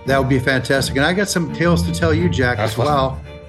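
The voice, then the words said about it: American accent. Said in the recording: “my horrible American accent ... it makes it feel more authentic”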